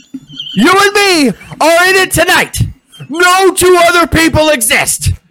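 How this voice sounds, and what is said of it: Over-the-top Ric Flair impression. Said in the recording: “my Flair impression ... I can do the over the top, like the Hogan ... that's my Flair”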